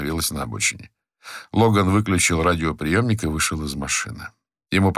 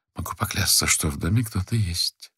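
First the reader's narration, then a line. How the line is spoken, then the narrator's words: Whispered. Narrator (Russian): шепотом сказал Тайлер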